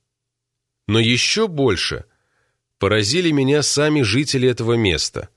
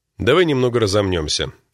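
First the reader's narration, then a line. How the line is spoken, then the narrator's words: Plain. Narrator (Russian): сказал Джулиан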